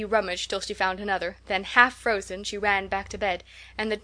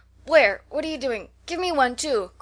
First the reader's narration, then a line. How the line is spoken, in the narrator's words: cried Clover, starting up